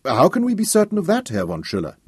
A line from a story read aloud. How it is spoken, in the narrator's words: Nahut asked